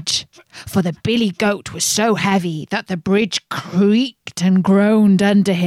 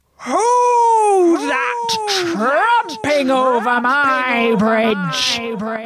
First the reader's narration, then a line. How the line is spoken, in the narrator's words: roared the troll